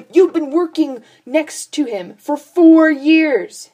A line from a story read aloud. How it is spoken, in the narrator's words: Sam shouted over Dean